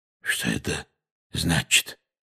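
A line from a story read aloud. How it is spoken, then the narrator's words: Hoarse question. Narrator (Russian): хрипло спросил дядя Вернон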